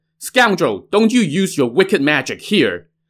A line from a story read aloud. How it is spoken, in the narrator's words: Seeing her husband get captured, Deng Qianyu shouted